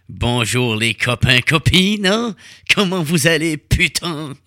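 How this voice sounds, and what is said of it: Put-on accent. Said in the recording (French): “j'ai pris ce petit accent-là”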